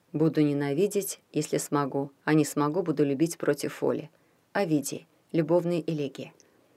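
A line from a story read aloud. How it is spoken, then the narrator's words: Low voice. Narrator (Russian): сказала она вполголоса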